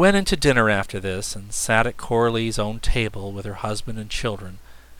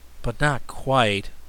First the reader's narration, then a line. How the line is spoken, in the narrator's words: said Button Bright sadly